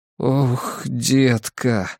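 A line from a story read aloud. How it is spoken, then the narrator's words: Breathless exhale. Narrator (Russian): выдохнул я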